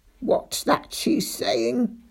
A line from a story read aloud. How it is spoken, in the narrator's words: croaked Ma Grunter, hobbling over